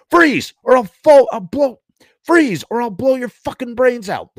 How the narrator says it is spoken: the white cop yelled

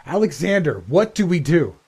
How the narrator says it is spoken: I screamed over the roar of the crowd

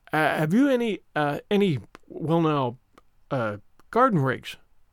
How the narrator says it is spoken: stammered Matthew

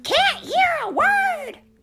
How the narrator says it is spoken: screamed Melissa

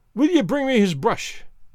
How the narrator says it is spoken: cries Allen, fiercely

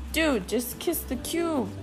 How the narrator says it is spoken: begged Puchito Tito again

